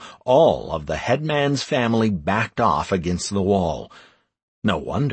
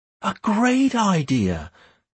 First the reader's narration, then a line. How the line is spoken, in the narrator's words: Beth exclaimed